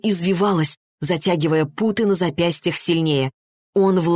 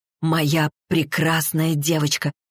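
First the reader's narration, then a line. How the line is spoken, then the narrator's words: Whisper. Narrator (Russian): прошептал он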